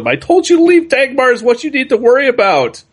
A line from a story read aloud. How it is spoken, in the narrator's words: she yells at him